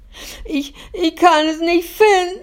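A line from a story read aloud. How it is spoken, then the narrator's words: Sobbing. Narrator (German): schluchzt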